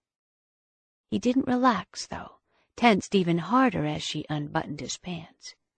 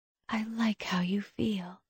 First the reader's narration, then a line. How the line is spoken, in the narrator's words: she whispered